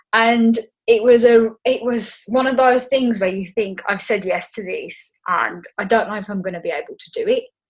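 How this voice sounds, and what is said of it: Black Country English accent. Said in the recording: “Obviously, you can tell from my accent, I'm from the Black Country.”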